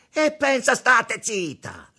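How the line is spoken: Shouting. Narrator (Italian): urlò

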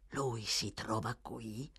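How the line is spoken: Impatient whisper. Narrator (Italian): L'ebreo spazientito e domandò in un bisbiglio

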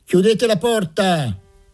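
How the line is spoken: Someone shouting. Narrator (Italian): qualcuno gridò

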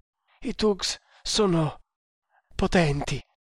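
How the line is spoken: Stammering. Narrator (Italian): balbettò

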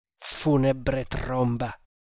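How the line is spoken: Angry mutter. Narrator (Italian): mormorò Tremal Naik con rabbia

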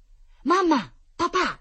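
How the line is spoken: Bear cubs shouting. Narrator (Italian): gridarono gli orsacchiotti

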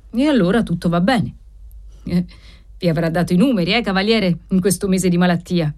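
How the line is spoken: Police officer asking, laughing. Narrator (Italian): chiese, sempre ridendo, l'ufficiale di polizia

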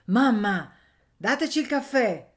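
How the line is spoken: Shout from street. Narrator (Italian): gridò Anania dalla strada

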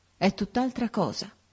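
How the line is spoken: Murmuring. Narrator (Italian): mormorò

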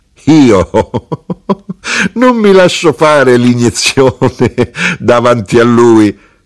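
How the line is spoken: Widow laughing. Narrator (Italian): la vedova rise, disse

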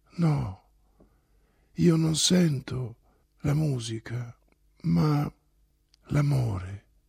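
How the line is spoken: Low voice. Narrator (Italian): disse Oblomov a bassa voce

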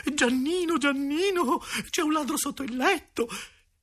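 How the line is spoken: Breathless exclamation. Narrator (Italian): esclama con la voce affannosa

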